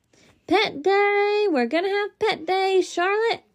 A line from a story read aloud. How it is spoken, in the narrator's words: I hollered